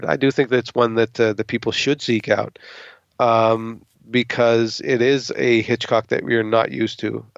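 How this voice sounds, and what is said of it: Hoarse, strained voice giving out. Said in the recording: “I'm losing my voice like fucking crazy now ... I hear your voice going there a little bit”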